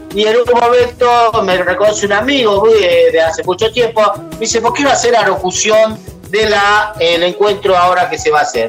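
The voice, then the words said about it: Noticeable foreign accent. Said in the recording (Spanish): “qué llamativo con su acento”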